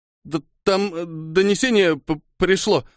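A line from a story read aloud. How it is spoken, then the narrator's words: Stammering. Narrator (Russian): заикаясь, начал он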